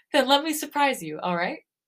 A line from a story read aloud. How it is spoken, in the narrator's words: I laugh nervously